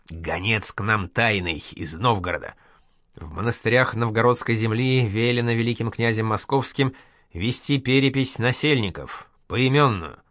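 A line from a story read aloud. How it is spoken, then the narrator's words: Hissed. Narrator (Russian): Зосима имел лик бледный, прошипел только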